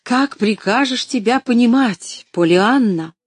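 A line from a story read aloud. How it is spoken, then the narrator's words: Exclaiming. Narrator (Russian): воскликнула тетя Полли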